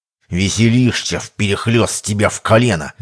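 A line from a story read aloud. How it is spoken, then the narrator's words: Snake-like hiss. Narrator (Russian): змеёй прошипел казак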